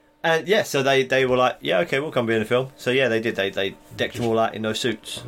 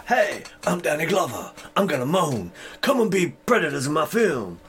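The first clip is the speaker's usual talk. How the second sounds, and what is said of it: Danny Glover impression. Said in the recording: “my Danny Glover impression”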